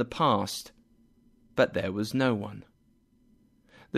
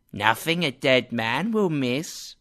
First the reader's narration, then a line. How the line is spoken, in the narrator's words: the first woman said with a nasty laugh